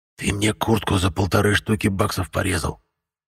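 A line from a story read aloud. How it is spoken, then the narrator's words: Hiss. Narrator (Russian): прошипел вурдалак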